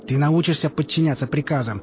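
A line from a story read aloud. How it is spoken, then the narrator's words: Colonel shouting over wind. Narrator (Russian): прокричал полковник сквозь свист воздуха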